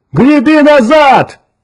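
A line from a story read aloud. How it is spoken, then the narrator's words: Shout. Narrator (Russian): крикнул Кертис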